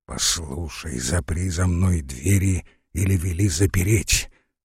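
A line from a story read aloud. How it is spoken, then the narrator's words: Hoarse, weak voice. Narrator (Russian): говорила хриплым и упалым голосом майорша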